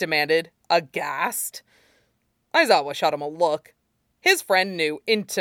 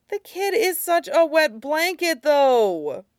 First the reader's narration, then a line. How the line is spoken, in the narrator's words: Mike whined